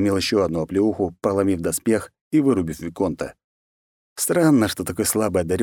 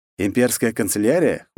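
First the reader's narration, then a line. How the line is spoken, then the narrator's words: Snorting. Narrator (Russian): хмыкнул я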